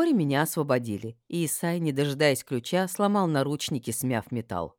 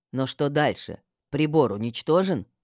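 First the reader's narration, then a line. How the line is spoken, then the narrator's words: Plain question. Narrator (Russian): спросила Хельма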